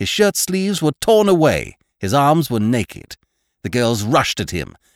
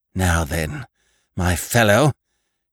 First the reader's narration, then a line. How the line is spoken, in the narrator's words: gasped Annie